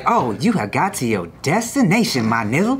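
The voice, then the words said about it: Imitates another person's voice. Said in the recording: “you could set it to Snoop Dogg's voice”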